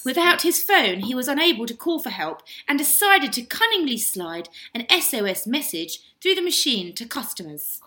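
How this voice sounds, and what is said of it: Posh accent like Joanna Lumley. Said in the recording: “my posh voice ... quite posh. You sound like Joanna Lumley.”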